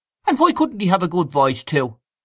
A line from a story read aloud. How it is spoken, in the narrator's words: asked Freddy Mallon sharply